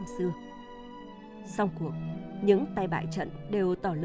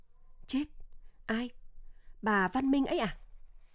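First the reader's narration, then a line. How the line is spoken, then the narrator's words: Frightened question. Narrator (Vietnamese): Câu ấy nói làm cho Xuân ngồi nhồm lên, sợ hãi hỏi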